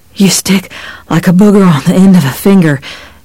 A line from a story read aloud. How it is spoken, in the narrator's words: he panted